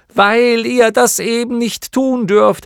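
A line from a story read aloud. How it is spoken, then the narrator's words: Shout. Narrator (German): schrie Bastian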